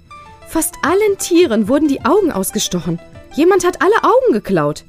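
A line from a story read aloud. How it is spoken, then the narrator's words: Horrified teacher crying out. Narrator (German): ruft die Lehrerin entsetzt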